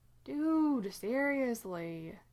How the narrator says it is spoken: Dean whines

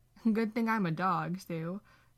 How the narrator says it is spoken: Dean laughs

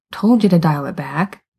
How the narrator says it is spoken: the long-haired one mutters

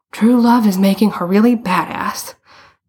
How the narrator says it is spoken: Bruno panted

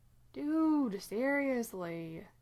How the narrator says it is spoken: Dean whines

